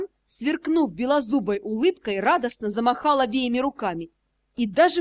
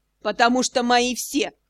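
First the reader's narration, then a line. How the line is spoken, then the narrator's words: Snorting remark. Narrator (Russian): хмыкнула Аскани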